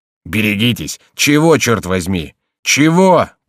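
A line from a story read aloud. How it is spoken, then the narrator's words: Roaring. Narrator (Russian): проревел тюремщик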